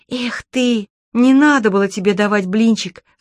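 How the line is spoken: Sigh. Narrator (Russian): вздохнула Чермейн

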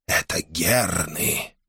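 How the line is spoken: Whispered. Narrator (Russian): прошептал Корхан

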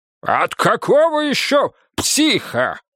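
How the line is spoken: Barking. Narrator (Russian): рявкнул Рыков

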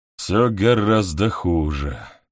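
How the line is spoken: Grim. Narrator (Russian): мрачно сообщает генерал

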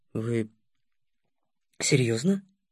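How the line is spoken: Mutter. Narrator (Russian): Пробормотал

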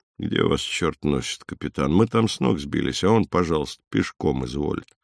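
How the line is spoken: Sleepy displeased grumble. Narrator (Russian): он проснулся, пробурчал недовольно

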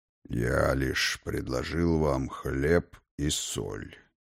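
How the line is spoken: Low, unhurried male voice. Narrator (Russian): проговорил низким, неспешным голосом вошедший мужчина

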